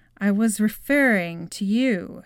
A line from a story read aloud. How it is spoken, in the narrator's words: she said